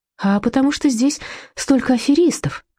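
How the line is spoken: Sigh. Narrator (Russian): вздохнула Людмила

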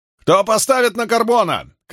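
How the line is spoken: A gladiator shouting. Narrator (Russian): крикнул кто-то из гладиаторов

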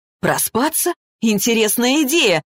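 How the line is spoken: Joyless laughing. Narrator (Russian): расхохотался Максим, но смех его был невеселым

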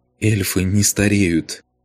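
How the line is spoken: Smiling through tears. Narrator (Russian): Сквозь слезы улыбнулась Алена

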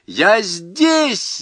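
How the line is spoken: Shout. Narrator (Russian): закричала она

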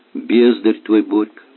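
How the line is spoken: Calm statement. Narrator (Russian): спокойно констатировала Ольга

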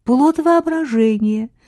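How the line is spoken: Cheerful. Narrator (Russian): весело продолжила она

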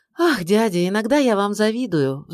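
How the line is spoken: Sigh. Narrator (Russian): вздохнула Амалия

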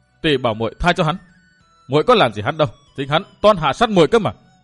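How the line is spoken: Furious, raised voice. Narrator (Vietnamese): Lục Vũ lệnh chủ trợn tròn mắt, bắn hung quang ngời ngời như lửa phừng, cao giọng

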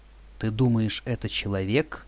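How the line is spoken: Plain. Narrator (Russian): спросила Шершова

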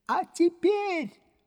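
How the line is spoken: Excited shout. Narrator (Russian): закричал Легран в необыкновенном волнении

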